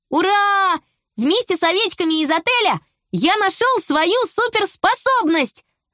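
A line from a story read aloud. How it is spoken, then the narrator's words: Joyful shout. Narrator (Russian): радостно закричал Флиппи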